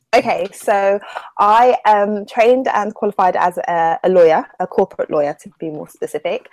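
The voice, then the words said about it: Southern English accent. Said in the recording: “her accent is distinctly different from yours ... she is from the South as well. And her accent is kind of similar to yours”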